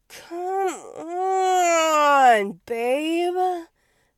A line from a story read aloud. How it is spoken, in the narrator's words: Felix moaned